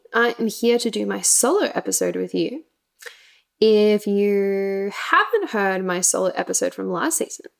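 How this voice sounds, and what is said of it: Speaks with a distinct accent. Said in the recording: “if you can't tell by my accent already”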